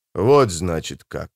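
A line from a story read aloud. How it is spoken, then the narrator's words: Muttering. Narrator (Russian): пробормотал быстрый Бен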